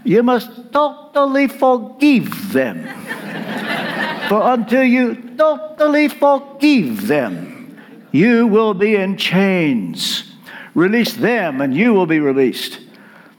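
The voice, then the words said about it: Imitated Romanian accent. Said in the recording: “I can hear him now in his Romanian accent.”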